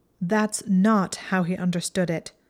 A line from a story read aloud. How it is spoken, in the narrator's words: Hermione said angrily